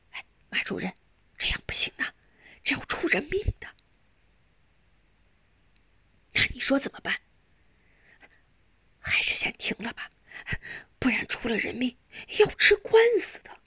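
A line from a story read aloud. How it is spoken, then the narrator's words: Quiet. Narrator (Chinese): 施工头小声对马小怀说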